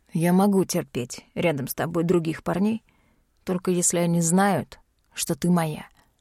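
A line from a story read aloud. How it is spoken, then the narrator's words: Hoarse confession. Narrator (Russian): хрипло признается Ян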